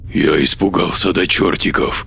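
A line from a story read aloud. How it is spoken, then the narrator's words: Frightened mumble. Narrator (Russian): пробормотал Бернардо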